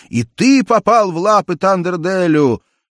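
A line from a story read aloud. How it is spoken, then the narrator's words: Prisoners shouting. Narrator (Russian): пленники закричали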